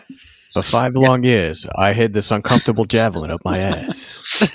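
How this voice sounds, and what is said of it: Imitates another person's voice, badly. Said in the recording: “Christopher Walken, a badly redone Christopher Walken from Pulp Fiction ... I didn't really give it the Christopher Walken effort.”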